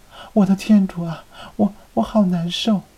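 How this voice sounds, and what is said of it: Coy, seductive feminine voice. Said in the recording (Chinese): “故意用娇媚的声音说道”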